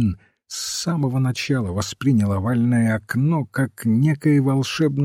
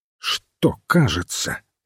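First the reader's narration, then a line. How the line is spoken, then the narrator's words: Sharp question. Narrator (Russian): резко спросил священник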